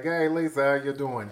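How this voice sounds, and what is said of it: Put-on New Jersey accent. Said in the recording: “I started... talking like this, and you know she's got a little bit of a Jersey accent”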